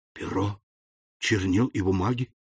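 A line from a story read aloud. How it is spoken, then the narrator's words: Muttering. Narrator (Russian): пробормотал Фернан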